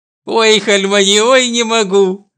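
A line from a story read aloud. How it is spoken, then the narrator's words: Moaning with laughter. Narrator (Russian): стонет она от хохота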